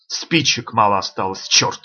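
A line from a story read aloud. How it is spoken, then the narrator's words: Plain. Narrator (Russian): сказал он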